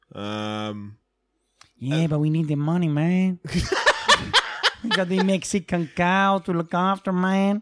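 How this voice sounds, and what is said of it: Poor put-on Mexican accent. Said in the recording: “It's just a poor accent.”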